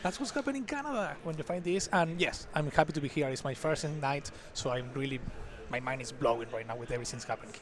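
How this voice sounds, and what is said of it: Non-Canadian foreign accent. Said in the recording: “also from Toronto, Canada, but not Canadian. You're going to see the accent here.”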